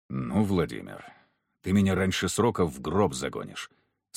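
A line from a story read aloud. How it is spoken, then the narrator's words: Quiet. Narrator (Russian): сказал он негромко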